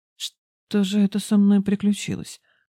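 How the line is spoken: Muttered. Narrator (Russian): пробормотал

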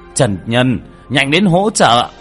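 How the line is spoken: Stunned, then shouting. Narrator (Vietnamese): Vương Bá Ngôn ngẩn ra, ngay sau đó la lên

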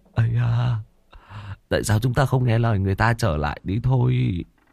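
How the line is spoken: Slightly trembling voice. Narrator (Vietnamese): Tên béo xấu xí có chút run run, nói

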